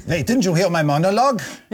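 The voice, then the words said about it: Puppet character voice. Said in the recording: “Chippy, are you back? ... I think ... just couldn't do the voice.”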